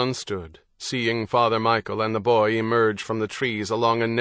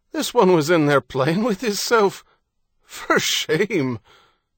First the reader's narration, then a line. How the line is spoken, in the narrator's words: Harity laughed loudly